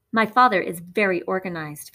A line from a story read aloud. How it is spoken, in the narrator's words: Phoebe said